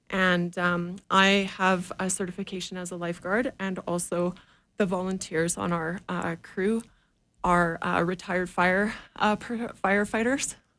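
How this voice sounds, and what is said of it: Out of breath speech. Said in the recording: “Oh, I'm out of breath.”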